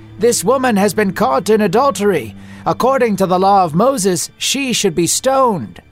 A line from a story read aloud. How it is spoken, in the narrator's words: one of the Pharisees shouted